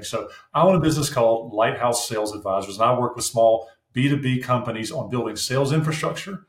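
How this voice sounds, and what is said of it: Southern US accent. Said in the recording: “my accent tends to point me to places further south”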